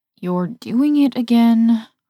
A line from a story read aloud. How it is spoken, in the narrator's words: moan over the loud rumble of turbulence